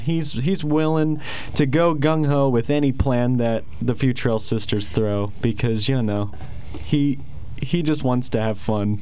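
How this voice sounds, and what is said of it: Slight Southern accent. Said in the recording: “you're kind of in your southern accent ... a little bit”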